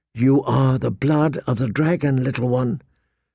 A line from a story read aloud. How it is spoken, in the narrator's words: she whispered